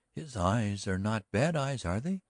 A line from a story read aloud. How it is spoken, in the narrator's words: already the girl had cried